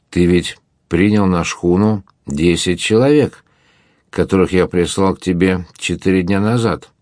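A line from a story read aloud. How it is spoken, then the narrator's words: Plain. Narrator (Russian): спросил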